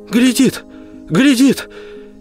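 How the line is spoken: Woman's sudden cry. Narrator (Russian): Женщина, остановившаяся позади его, вскрикнула

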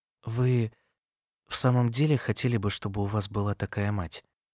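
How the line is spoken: Serious, slightly sad question. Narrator (Russian): Серьезным, не похожим на то, как она говорила только что, даже слегка печальным голосом она спросила

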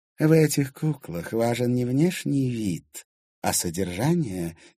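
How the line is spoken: Quiet reply. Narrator (Russian): тихо ответила Кадиша

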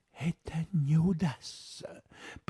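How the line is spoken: Whispered. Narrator (Russian): прошептал Холмс

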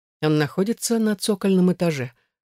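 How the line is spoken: Plain. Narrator (Russian): ответил Артур

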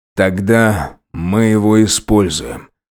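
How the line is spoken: Dead, flat voice. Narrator (Russian): мертвым голосом произнес полицейский

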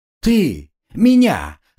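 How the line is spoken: Loud laughter. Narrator (Russian): расхохотался Монброн

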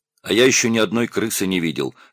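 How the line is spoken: Calm. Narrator (Russian): сказал спокойно музыкант

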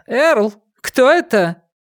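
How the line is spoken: Wife shouting. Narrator (Russian): жене у Уокера дома, которая как раз в этот момент распахнула дверь и крикнула

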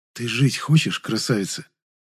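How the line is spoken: Whisper. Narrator (Russian): я снова прошептал

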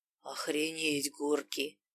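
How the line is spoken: Rasping. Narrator (Russian): прохрипел

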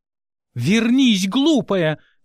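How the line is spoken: Shouting after someone. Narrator (Russian): кричала в спину Мерина

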